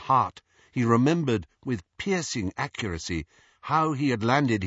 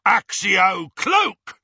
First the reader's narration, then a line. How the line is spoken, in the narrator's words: roared one of the Death Eaters